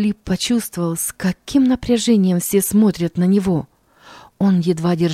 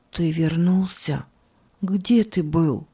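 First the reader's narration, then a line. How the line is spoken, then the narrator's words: Sick man's whisper. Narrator (Russian): Больной прошептал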